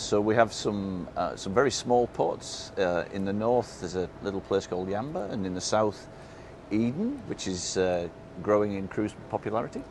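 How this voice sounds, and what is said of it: British, non-Australian accent. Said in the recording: “that's not an Australian accent ... us Brits”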